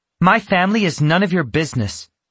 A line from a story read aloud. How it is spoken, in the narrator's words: she snapped